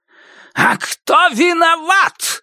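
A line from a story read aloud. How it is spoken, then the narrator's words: Angry shout. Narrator (Russian): злобно крикнул отец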